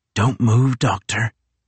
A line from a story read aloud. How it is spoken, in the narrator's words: whispered the boy